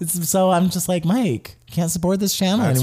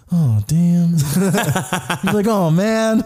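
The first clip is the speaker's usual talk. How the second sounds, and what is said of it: Imitates another person's voice. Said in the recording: “It's a very good stepdad impression.”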